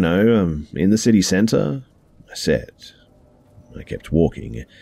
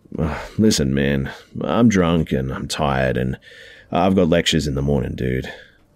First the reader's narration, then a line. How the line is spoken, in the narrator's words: I said, trying to sound casual even though I was just about ready to piss my pants